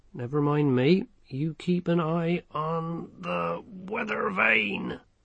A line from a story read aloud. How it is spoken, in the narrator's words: groaned the sergeant